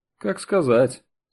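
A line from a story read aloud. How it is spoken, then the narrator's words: Thoughtful prisoner. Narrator (Russian): задумчиво ответил заключенный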